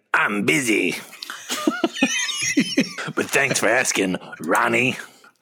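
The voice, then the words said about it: Hoarse imitation of a rock singer. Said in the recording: “pretty good Vince Neil impression. ... If Vince Neil had like a sore throat. ... ages of hard living. ... All the helium has left his lungs.”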